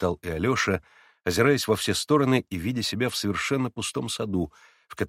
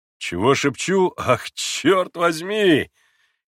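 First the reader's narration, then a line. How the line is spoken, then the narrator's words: Sudden full-voiced shout. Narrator (Russian): крикнул вдруг Дмитрий Федорович самым полным голосом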